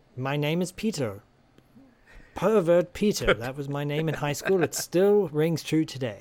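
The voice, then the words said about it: Put-on British accent. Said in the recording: “Just because I have a British accent”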